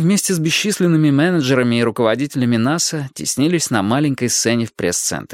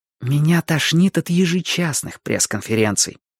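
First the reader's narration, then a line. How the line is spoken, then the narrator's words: Whispered reply. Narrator (Russian): прошептала она в ответ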